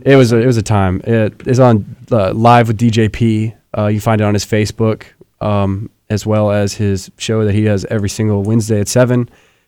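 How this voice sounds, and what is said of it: Slightly rough, sick-sounding voice. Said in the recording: “I am a little sick today ... my voice is a little messed up”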